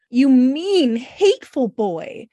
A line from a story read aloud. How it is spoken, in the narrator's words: exclaimed passionately